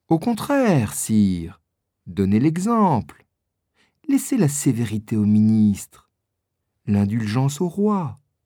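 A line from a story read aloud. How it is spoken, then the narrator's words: Calm cardinal. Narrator (French): dit calmement le cardinal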